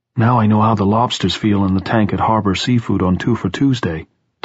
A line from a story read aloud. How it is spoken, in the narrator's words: Tom said in a small, tight voice